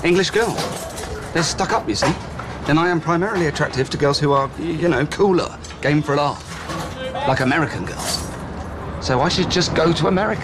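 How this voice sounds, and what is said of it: British accent. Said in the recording (French): “my cute British accent”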